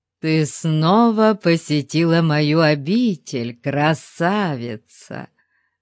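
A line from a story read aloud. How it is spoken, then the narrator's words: Insincere purr. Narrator (Russian): лицемерно промурлыкал он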